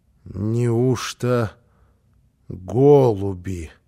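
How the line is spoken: Muttering. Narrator (Russian): пробормотала она

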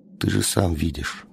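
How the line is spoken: Plain. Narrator (Russian): сказал он

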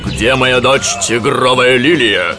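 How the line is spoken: Rough question. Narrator (Russian): грубо спросил он

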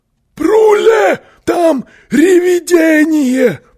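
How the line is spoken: Screaming. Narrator (Russian): завопил он

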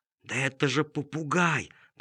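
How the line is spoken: Whisper. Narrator (Russian): прошептал Чиполлино медведю

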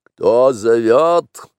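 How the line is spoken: Barking roar. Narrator (Russian): рявкнул Шер-хан

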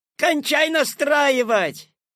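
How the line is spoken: Shout from the audience. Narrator (Russian): крикнули из зала

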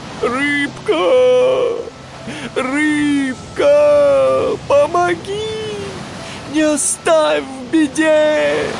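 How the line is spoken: Shouting while rowing. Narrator (Russian): Гуфи греб и кричал

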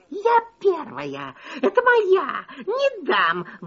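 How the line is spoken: Fox's sudden shriek. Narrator (Russian): вдруг взвизгнула лиса

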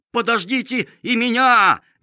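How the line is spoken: Sudden shout. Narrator (Russian): неожиданно закричал Лимонюшка

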